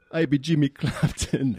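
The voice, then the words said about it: Put-on Jamaican accent. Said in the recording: “he does the Jamaican accent”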